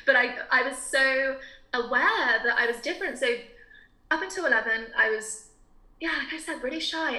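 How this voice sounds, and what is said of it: Quite posh English accent. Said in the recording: “I speak with quite a posh accent”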